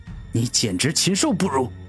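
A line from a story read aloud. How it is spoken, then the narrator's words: Furious roar. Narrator (Chinese): 古天明怒吼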